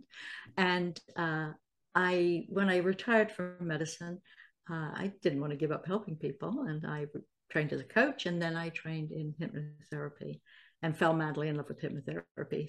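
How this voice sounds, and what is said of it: British accent with American influence. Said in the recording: “I'm originally from Salisbury, the UK, but I've lived in the States for a long, long time, as you can probably tell from my accent.”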